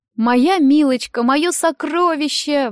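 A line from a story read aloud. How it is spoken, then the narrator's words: Exclaiming. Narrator (Russian): воскликнула Нэн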